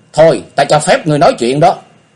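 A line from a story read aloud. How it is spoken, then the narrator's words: Angry. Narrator (Vietnamese): Diệp Linh Tô cô lập tức tức giận nói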